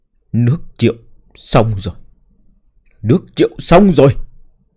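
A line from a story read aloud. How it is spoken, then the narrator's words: Tearful muttering. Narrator (Vietnamese): Nước mắt chảy, lẩm bẩm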